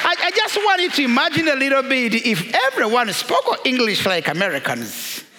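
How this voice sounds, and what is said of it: African-accented English. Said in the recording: “my accent being very much different from your accent ... You haven't been to Africa. We speak English in different”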